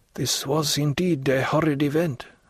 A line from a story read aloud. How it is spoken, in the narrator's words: said he in a hoarse voice